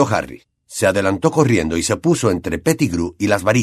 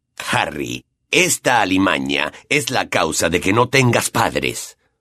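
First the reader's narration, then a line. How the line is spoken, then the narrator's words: Growled. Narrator (Spanish): gruñó Black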